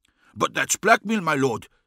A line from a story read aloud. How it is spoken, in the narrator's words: exclaimed